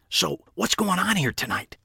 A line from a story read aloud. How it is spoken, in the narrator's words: Pete whispered